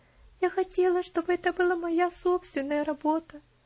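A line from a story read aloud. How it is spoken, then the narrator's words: Sobbing. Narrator (Russian): Она всхлипнула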